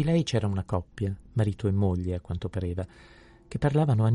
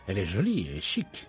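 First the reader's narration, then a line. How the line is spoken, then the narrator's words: Murmured. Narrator (Italian): mormorò Poirot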